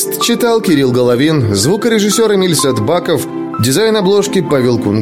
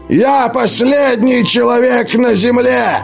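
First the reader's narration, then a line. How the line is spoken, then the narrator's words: Shouting. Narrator (Russian): закричал он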